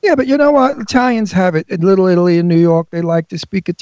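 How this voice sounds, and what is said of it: Usual voice. Nothing is said of it.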